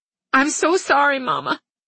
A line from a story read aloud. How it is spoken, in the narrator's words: Tamara said between sobs